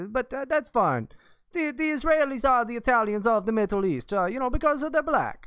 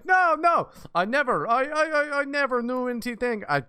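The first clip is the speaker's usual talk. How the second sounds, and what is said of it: Poor put-on Israeli accent. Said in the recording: “That's a horrible Israeli accent ... This is an Italian man.”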